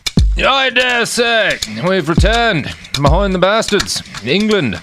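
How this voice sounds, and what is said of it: Poor put-on English accent. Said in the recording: “That's my terrible English accent”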